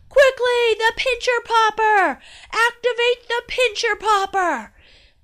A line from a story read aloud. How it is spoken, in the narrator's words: Dad shouted